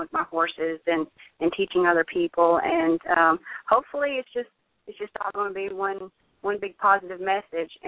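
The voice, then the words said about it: Pure Southern US accent. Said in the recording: “who's Cherokee Asian with a pure southern accent”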